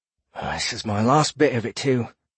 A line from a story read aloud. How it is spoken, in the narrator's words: he grumbled